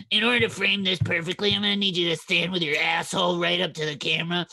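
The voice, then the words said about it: Imitates another person's voice. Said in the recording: “my Joss Whedon impression”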